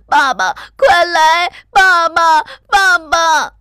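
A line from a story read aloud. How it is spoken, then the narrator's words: Shrill crying. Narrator (Chinese): 里头发出尖声哭叫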